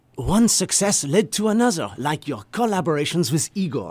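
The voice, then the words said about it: Put-on French accent. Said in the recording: “I'm going to try my French accent. ... these affected accents”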